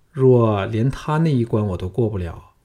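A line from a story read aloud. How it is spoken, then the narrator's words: Sighing. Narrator (Chinese): 项少龙叹道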